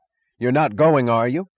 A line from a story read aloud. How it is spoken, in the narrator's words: he cried to his passengers